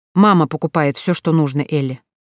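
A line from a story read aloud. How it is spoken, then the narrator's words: Young woman grumbling by habit. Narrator (Russian): проворчала девушка, скорее по инерции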